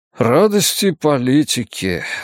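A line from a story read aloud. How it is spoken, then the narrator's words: Sighing. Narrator (Russian): вздохнул он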